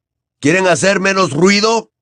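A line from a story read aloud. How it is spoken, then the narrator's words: Shout. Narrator (Spanish): gritó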